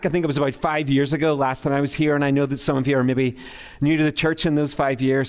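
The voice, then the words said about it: Belfast Northern Irish accent. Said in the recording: “the terrible accent ... I was born and raised in Belfast, Northern Ireland ... I got that like Belfast accent going on, you know, like I sound like I'm ready for a fight at any moment”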